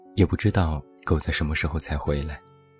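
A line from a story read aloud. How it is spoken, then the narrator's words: Murmuring. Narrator (Chinese): 他又喃喃道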